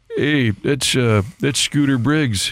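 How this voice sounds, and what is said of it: Impression of an older man, Rick Smith. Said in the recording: “Probably my Rick Smith ... He was the Rams PR director, an older guy ... It wasn't just his voice, but it was also his sort of isms”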